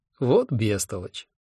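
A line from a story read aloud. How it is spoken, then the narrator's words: Almost tender. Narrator (Russian): почти нежно сказал он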